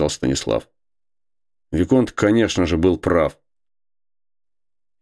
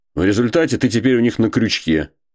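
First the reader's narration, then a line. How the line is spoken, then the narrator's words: Still angry. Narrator (Russian): продолжал Виконт по-прежнему сердито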